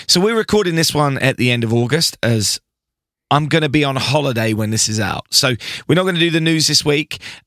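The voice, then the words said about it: Slightly hoarse, throaty voice. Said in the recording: “as you can hear, I'm a little bit throaty ... A little hoarse ... little hoarse”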